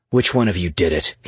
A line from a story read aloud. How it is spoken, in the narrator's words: he barked